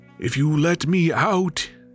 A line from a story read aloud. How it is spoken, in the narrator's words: cried the djinn